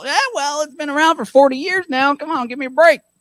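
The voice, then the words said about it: Old Texan man voice. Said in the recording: “old man voice. My old Texas yippy-skippy voice.”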